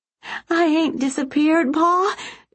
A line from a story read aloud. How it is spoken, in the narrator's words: she said, her voice quivering like she was a little girl again